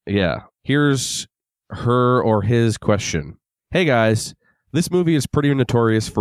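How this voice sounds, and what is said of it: Usual voice. Nothing is said of it.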